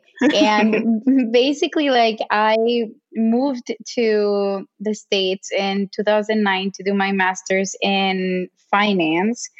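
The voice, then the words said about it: Mexican accent. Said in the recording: “I'm Mexican. That's where the accent comes from. It's never going to go away.”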